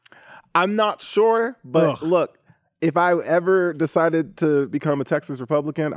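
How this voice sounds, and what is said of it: Put-on country accent. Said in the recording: “my voice went country for that one”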